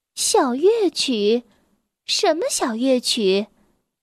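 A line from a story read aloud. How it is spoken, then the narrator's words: Sighing. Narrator (Chinese): 艾希叹息道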